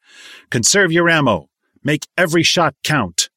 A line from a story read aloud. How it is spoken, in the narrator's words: Frank raised his voice and said